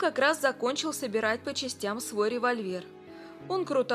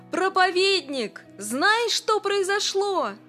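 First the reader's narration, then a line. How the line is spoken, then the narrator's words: Joyful shout. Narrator (Russian): мистер Эндрюс весь сияя от радости, и закричал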